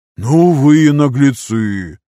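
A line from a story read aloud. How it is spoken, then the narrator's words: Forced out. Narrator (Russian): Только и выдавил Снупи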